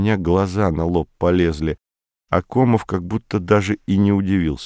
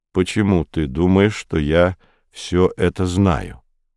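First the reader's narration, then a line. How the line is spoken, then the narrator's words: Calm question. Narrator (Russian): спросил он спокойно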